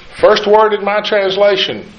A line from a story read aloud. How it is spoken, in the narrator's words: Jehoram shouts